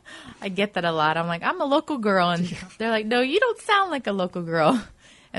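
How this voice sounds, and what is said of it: Mississippi Southern US accent. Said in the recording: “Originally, I'm from Mississippi. You can probably hear the accent.”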